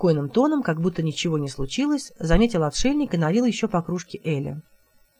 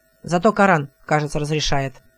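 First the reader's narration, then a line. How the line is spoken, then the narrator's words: Angry. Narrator (Russian): сердито сказал отшельник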